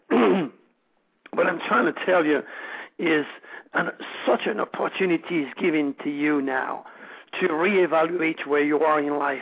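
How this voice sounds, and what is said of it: Strained, failing voice. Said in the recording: “I was on the radio again somewhere else and my voice is losing.”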